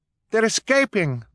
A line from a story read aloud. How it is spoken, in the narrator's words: Violet cried